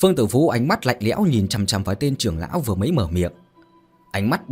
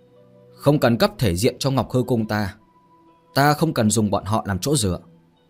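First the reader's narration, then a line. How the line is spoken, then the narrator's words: Cold. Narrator (Vietnamese): Phương Tử Vũ lạnh lùng mà nói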